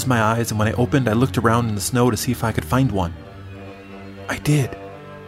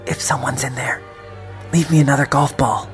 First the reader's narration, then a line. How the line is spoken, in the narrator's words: I whispered